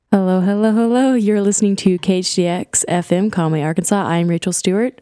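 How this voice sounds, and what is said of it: Slightly rough, sick-sounding voice. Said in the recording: “I'm a little sick, so I'm sorry if I sound a little rough”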